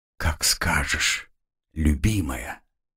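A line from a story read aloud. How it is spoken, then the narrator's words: Quiet reply. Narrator (Russian): тихо ответил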